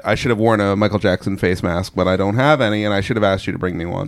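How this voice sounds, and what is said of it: Voice of someone with a cold. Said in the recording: “So I have a cold”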